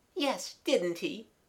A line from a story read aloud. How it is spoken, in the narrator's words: said Mabel, giggling also